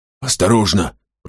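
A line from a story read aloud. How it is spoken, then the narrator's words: Whisper. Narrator (Russian): прошептал Финолео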